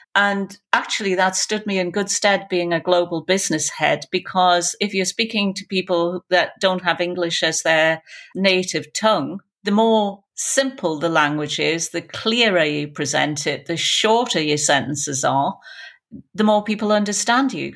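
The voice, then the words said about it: Geordie accent. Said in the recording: “with my Geordie accent”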